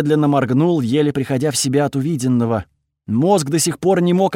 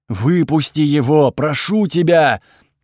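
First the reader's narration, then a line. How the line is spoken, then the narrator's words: Piercing scream. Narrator (Russian): пронзительно закричал бог ночи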